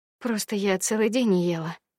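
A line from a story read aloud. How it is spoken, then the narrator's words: Mumbled. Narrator (Russian): пробормотала Агния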